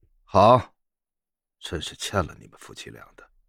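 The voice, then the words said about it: Quiet muttering, no resentment. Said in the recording (Chinese): “小声的嘀咕了一句，听不出一丝的怨气”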